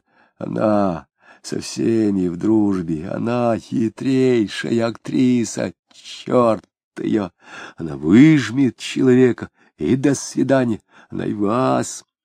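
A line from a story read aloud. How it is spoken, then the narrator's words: Quiet hiss through teeth. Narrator (Russian): продолжал еще тише, со свистом, как бы сквозь зубы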